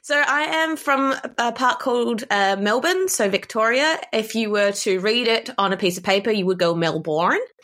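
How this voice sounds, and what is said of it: Australian accent. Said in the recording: “you can hear her accent, which I freaking love so much. So you are from Australia.”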